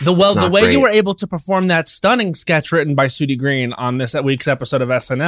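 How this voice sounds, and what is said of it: Usual voice. Nothing is said of it.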